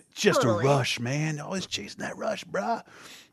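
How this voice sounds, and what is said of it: Exaggerated California surfer accent. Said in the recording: “Keanu Reeves in a very California accent”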